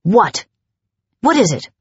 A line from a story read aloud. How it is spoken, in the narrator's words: I snapped